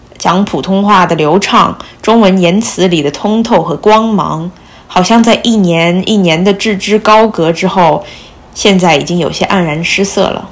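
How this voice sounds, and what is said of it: Mandarin with a slight foreign accent. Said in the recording (Chinese): “我的普通话口音，嗯，应该是因为九年级或者是高一的时候我就开始在美国读书，疏于讲中文的懒惰导致的”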